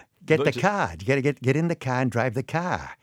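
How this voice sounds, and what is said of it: Exaggerated Dorchester Boston accent. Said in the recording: “our own accent is Dorchester ... That's Dorchester.”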